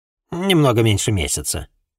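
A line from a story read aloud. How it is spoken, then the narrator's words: Grumbling woman. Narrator (Russian): проворчала женщина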